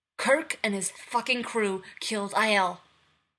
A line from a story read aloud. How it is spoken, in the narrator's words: Nero barks